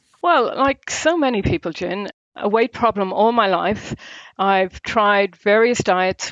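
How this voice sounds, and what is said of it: Irish accent. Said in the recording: “there's an Irish twang in there ... it's definitely an Irish accent”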